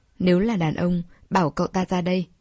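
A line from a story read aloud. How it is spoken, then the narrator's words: Cold. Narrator (Vietnamese): Đường Hình lạnh lùng nói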